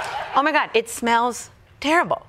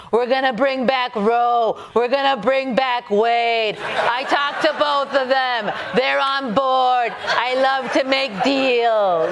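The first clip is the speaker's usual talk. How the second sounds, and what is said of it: Donald Trump impression. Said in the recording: “best Trump impression”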